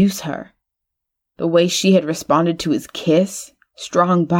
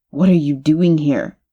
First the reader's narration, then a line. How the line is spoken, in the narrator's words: he asked